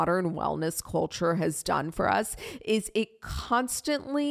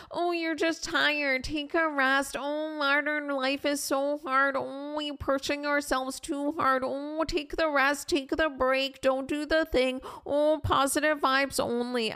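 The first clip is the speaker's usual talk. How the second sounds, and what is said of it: Weird accent and weird voice. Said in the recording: “I don't know what voice that is. I have no idea. It's like a weird accent plus a weird voice.”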